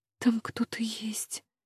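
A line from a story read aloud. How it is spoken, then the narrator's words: Frightened mutter. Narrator (Russian): бормочу испуганно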